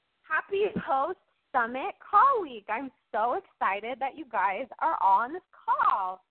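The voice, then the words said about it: Enthusiastic, excited delivery. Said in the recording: “I'm very enthusiastic right now, as you guys can tell in my voice”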